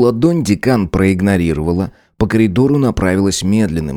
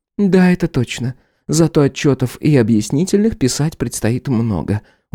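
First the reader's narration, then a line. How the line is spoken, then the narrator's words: Tired, smiling. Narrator (Russian): устало улыбнулась Гарцева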